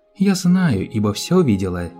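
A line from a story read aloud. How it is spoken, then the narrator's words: Plain. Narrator (Russian): сказала принцесса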